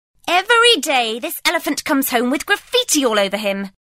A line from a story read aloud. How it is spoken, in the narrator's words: shouted the elephant master